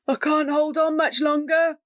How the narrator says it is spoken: Ben cried

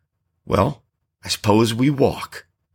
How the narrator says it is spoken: he sighed

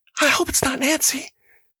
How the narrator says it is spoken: A girl whispered

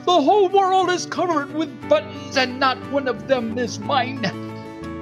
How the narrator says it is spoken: He screamed

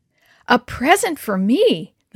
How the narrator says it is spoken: woman exclaimed

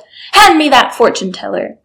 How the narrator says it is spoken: He loudly called out

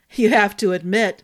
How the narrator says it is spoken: Baithen said with a badly repressed chuckle

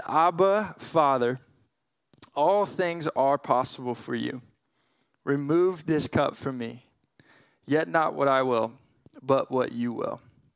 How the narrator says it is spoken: Jesus cries out in agony, and he said

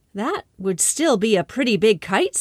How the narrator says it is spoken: said Kiko's grandfather

